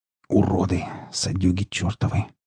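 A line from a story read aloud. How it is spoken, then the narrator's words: Hiss. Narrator (Russian): прошипел сталкер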